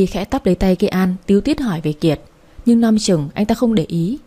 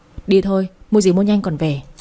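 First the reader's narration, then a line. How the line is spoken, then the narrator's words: Cold, frowning. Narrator (Vietnamese): Kiệt chau mày, lạnh lùng nói với Kê An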